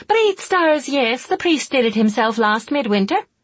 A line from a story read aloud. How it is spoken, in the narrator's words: the woman exclaimed impatiently